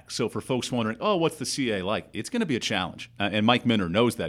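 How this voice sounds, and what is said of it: Polished broadcaster-style voice. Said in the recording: “a better podcast voice than you do ... you could tone down the broadcaster voice a little bit”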